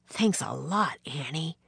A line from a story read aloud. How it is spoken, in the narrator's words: Jack whispered